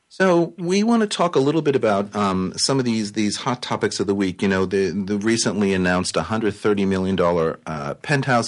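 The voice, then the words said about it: Raspy voice from sore throat. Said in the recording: “I have a little bit of a sore throat, so if I sound raspy,”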